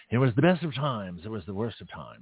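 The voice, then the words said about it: Exaggerated old-fashioned posh British accent. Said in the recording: “He, he spoke like this. ... And this is how he spoke. A very, very terribly British accent, which I tend to emulate”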